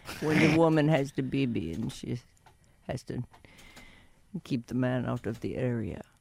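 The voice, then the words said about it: Impersonation of another person. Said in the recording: “That's my Jorge impersonation. I'll work on it.”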